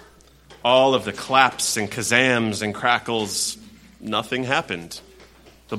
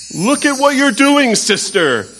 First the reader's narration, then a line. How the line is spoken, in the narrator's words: yelled Air